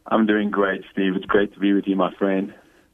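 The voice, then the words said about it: Noticeable foreign accent. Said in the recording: “The accent is just so great.”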